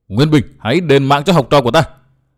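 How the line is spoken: Woman shouting. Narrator (Vietnamese): Vừa hét, bà ta

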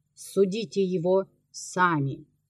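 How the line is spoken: Calm, unshaken speech. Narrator (Russian): игумен, непоколебимый в своей доверенности, спокойно сказал

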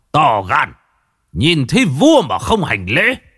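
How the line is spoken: Shout. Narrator (Vietnamese): Bình Nguyên Hầu quát

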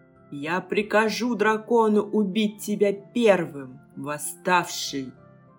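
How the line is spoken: Growled. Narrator (Russian): прорычал Уузон

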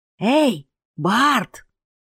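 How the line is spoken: Ragged man whispering in ear. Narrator (Russian): зашептал ему в ухо оборванец

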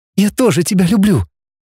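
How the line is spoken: Trembling whisper. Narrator (Russian): сказала девушка вздрагивающим шепотом

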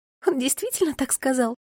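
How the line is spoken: Giggling. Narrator (Russian): хихикнула Мира

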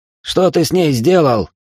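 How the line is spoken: Angry bark. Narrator (Russian): зло рявкнул он на Стаса

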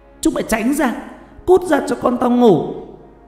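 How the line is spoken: Rising into shouting. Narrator (Vietnamese): cô bắt đầu to tiếng, chuyển thành quát tháo

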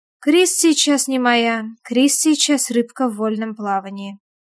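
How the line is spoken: Calm. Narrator (Russian): спокойно замечаю я

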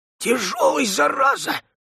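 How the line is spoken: Hoarse grumbling curse. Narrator (Russian): выругался хриплый и проворчал

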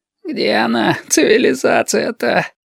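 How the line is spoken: Exhausted groan. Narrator (Russian): простонал изнемогший Лосьон

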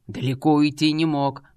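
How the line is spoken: Growling. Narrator (Russian): прорычал Кент

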